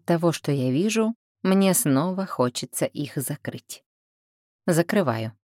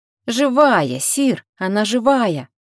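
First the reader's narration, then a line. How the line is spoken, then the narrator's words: Near shout, younger man. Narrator (Russian): почти закричал тот, что помоложе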